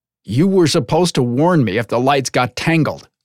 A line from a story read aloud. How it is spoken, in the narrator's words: Zorin snapped